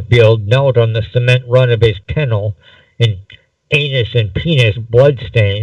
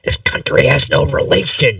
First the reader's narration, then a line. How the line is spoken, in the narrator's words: hissed